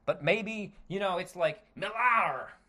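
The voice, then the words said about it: Poor put-on Scottish accent. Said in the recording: “That was a terrible Scottish accent.”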